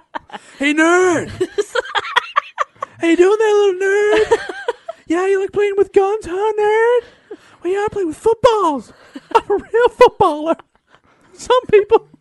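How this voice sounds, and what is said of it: Jock character voice rising higher pitch. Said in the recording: “my voice keeps getting higher. My voice is getting higher and higher ... Till eventually only dogs can hear ... in a weird helium”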